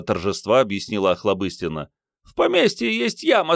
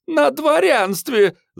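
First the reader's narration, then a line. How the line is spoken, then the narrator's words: Yelled. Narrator (Russian): завопила Охлобыстина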